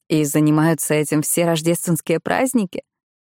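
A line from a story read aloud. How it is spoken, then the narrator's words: Laughing. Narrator (Russian): Сусанна рассмеялась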